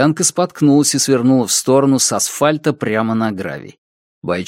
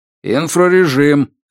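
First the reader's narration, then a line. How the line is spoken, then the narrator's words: Barking. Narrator (Russian): рявкнул Роберт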